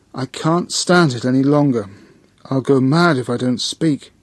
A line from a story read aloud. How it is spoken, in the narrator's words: I heard Satchapriya exclaimed